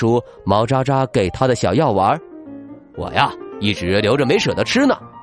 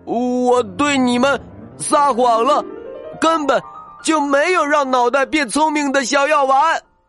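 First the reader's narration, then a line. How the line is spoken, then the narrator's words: Loud shout. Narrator (Chinese): 他大声叫了起来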